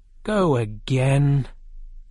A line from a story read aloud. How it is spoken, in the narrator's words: the king said very sadly